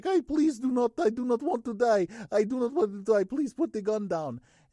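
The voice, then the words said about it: Slow, controlled Russian accent. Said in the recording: “had to do a Russian voice ... a Russian hacker ... It was still just very controlled ... The speech was slower than how I would probably normally do it without the Russian accent”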